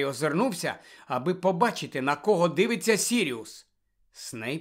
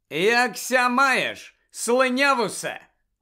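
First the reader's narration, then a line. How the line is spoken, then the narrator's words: Loud greeting. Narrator (Ukrainian): голосно привітався Джеймс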